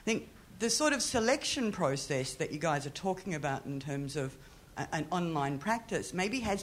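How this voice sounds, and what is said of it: Australian accent. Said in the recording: “from my accent, I'm Australian”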